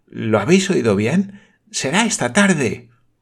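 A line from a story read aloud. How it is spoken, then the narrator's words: Exclaiming. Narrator (Spanish): exclamó la señorita Campbell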